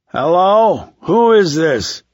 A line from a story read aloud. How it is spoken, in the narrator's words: Watson wasn't slurring his words